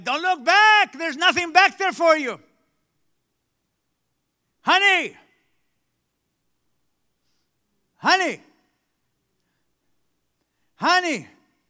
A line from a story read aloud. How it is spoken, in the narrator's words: Lot in front yells at everybody